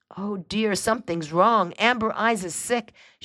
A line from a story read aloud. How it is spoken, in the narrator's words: exclaimed